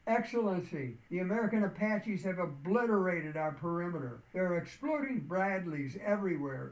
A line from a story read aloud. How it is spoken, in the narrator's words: As deafening roars added to the ears, the shattering noise of the massed Apaches, a communications tech called out